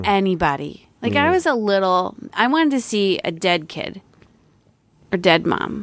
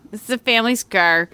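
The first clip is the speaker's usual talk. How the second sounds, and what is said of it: Put-on Buffalo accent. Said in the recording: “That's that Buffalo accent.”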